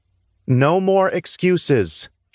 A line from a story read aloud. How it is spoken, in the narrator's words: she said, her voice firm